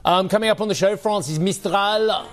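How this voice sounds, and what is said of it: Put-on French accent. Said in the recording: “Why'd I have to say it in a French accent?”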